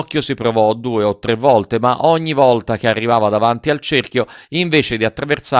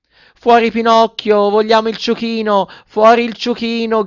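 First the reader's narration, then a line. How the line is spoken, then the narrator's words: Moved children shouting. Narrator (Italian): gridavano i ragazzi dalla platea, impietositi e commossi al tristissimo caso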